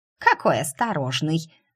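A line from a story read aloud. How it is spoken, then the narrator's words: Snorting squirrel. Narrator (Russian): фыркнула в усы белка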